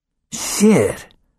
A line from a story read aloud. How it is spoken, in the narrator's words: Leo hissed